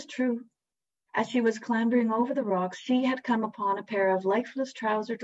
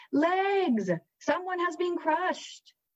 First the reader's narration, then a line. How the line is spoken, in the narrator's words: Odette called out to the thwarted revelers